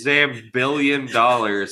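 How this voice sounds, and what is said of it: Imitates Dr. Evil's voice. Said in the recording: “in a Dr. Evil voice”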